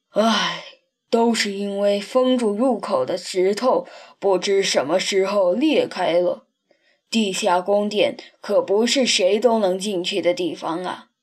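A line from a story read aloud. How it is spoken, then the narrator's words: Sighing. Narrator (Chinese): 斗牛叹着气说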